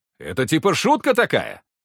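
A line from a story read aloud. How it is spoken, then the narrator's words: Snapping growl. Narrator (Russian): Вепрь огрызнулся рыком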